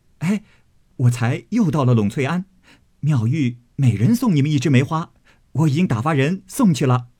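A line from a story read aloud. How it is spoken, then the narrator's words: Cheerful, laughing. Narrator (Chinese): 宝玉笑向宝钗、黛玉等道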